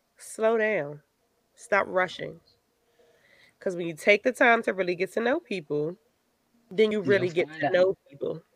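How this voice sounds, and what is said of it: Slow, smooth late-night radio voice. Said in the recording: “putting on this after dark voice ... Love talking slow jams”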